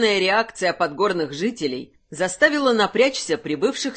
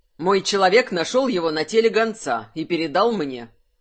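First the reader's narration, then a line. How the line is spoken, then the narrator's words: Even tone. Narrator (Russian): сказал Кайфат ровным тоном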